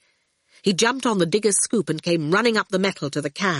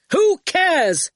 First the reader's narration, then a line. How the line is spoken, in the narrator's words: shouted Archer